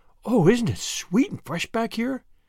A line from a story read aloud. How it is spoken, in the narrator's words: breathed Anne